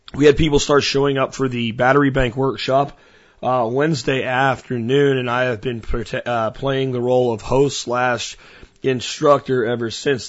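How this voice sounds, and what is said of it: Tired, slightly hoarse voice. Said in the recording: “I'm tired, and you might hear in my voice, uh, I am also a bit hoarse.”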